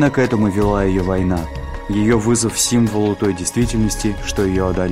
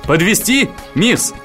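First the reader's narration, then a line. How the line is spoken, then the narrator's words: Shouted. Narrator (Russian): водитель крикнул Донне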